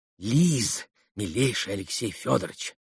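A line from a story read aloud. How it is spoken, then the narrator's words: Whispering close to ear. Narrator (Russian): зашептала она почти на ухо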